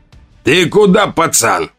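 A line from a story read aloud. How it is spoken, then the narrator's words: Growled. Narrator (Russian): зарычал он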